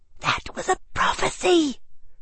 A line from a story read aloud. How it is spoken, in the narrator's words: someone at the table hissed